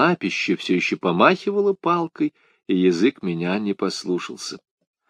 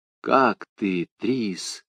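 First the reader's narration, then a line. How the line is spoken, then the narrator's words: Whispered question. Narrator (Russian): спросил я шепотом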